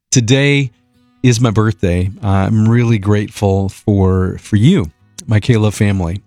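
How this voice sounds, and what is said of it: Emotional, slightly choked-up voice. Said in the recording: “Sorry if I'm a bit emotional ... I get emotional every birthday”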